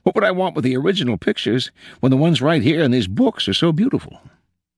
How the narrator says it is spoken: he exclaimed

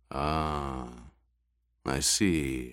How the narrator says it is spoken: Raban murmured

